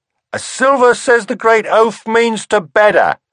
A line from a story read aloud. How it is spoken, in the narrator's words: someone japed